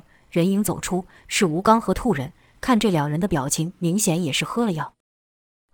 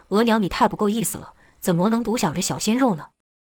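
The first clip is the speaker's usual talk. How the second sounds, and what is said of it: Rough, gruff male voice. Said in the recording (Chinese): “一个粗犷的声音说”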